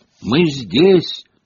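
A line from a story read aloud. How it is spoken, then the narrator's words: Sudden shout. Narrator (Russian): неожиданно крикнула Гермиона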